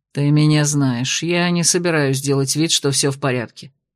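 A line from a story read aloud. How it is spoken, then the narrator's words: Grumbled. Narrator (Russian): буркнул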